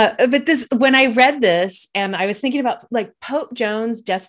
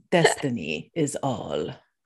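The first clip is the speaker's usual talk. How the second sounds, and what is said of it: Imitates a character's voice. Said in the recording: “Can you just do it again in that same voice? That was perfect.”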